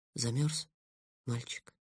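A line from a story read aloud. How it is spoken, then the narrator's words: Soft, gentle. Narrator (Russian): мягко сказала Гаррет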